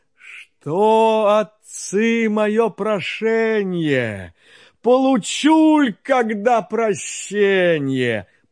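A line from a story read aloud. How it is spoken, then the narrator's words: Sighing speech. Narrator (Russian): Чудо-юдо, рыба-кит, так вздохнувши, говорит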